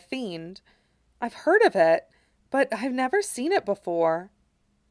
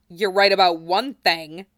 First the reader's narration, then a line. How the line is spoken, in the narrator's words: Genesis snarled